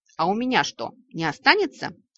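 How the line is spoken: Snapping retort. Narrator (Russian): огрызнулась ваша покорная слуга

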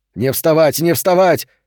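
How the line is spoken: Shouting. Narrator (Russian): кричал Тру

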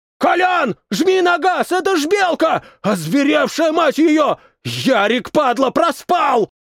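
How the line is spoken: Yelling man. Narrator (Russian): Заорал кривоносый

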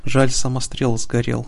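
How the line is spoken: Sighing. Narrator (Russian): вздохнула Талиминка

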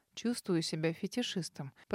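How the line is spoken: Muttered into hair. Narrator (Russian): пробормотал он в макушку

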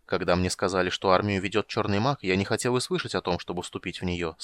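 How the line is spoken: Plain. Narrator (Russian): сказал он

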